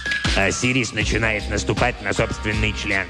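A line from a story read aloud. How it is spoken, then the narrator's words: Grumbling. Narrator (Russian): проворчал Себек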